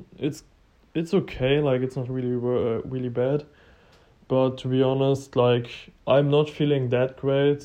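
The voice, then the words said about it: Voice sounds sick. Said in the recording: “sorry for my voice. I'm a little bit sick at the moment.”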